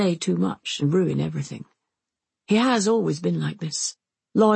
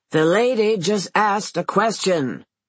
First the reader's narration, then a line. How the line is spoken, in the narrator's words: he roars